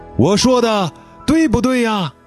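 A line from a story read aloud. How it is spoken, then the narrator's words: Loud question. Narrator (Chinese): 杰巴勒 高声地发问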